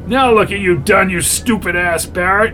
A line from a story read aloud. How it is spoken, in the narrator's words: shouted Kellogg